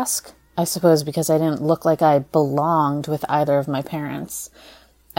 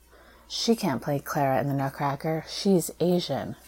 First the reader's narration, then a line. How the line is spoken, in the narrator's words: ballet classmates would murmur